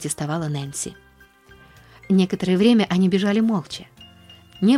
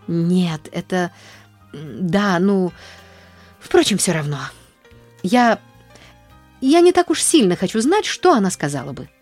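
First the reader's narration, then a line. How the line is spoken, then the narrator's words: Stammering. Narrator (Russian): запинаясь, вымолвила Нэнси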